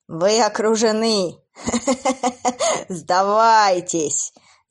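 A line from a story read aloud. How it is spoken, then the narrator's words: Laughing. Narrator (Russian): засмеялся пожиратель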